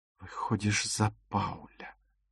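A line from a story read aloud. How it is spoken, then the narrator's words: Whispered. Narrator (Russian): прошептала Дагмар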